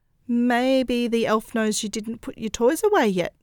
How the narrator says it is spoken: Josie stammered

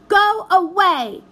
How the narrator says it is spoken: shouted the blue vision over her shoulder

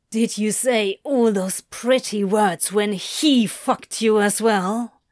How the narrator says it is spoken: Crowley hisses

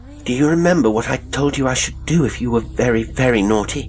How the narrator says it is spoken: She asked sadly

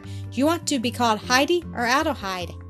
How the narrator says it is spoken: asked Clara

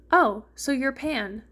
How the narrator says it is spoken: Sora exclaimed

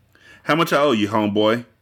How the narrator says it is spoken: The light-skinned boy stammered said

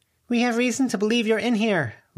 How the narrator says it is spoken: Lucy called out

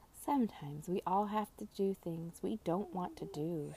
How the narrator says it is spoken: she told him gently

